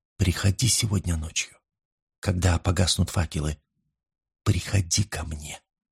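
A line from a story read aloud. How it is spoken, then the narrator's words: Whispered in the ear. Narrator (Russian): шепнула на ухо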